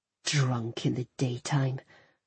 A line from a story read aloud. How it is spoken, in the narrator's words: I said quietly, more to myself than to Raymond